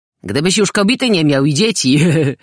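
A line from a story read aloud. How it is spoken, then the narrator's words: Laughing. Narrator (Polish): zaśmiał się tamten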